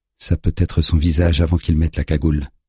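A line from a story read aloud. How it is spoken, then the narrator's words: Tense voice. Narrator (French): déclare Juna d'une voix tendue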